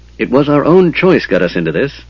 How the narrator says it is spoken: Tanis snapped

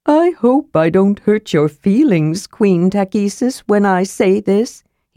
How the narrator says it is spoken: he said solemnly

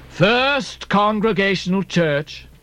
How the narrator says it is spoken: cried Bildad

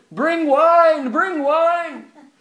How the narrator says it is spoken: he was loudly calling

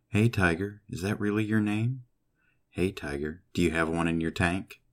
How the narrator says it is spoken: She purred

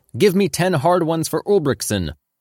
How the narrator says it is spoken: Moak shouted out

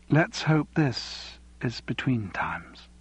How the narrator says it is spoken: She gave a long sigh

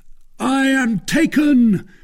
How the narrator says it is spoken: shouted Athos with all the power of his lungs

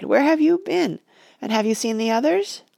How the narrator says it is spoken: I cried

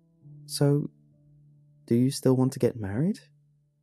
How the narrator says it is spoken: she asked, her voice tremulous with tentative hope

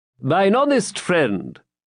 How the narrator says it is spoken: said he

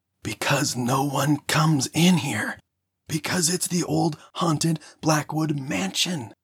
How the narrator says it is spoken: I whisper screamed back

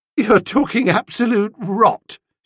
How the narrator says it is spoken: she said, but it was with a quaver on the V

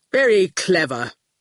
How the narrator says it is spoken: growled Quentin

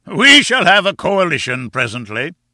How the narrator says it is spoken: boomed, puffing out his enormous chest

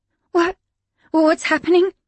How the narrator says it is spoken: she gasped

